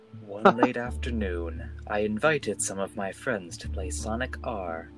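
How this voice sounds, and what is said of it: Foreboding storytelling voice. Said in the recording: “I'm gonna do a very foreboding voice.”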